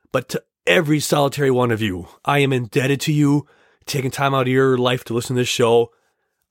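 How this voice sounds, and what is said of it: Strained, troubled voice. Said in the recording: “as you hear, my voice is having a tad bit of trouble here”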